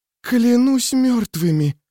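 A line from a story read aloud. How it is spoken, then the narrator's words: Breathed out. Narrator (Russian): выдохнула Рикки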